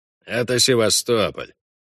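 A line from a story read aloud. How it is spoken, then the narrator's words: Grim warning. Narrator (Russian): мрачно предупредил Хальгдав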